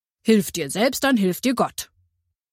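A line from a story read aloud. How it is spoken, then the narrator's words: Firm voice. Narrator (German): sagte mit fester Stimme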